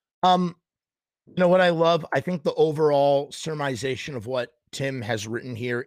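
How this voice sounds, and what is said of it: Hoarse, worn-out voice. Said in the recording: “my voice is thrashed”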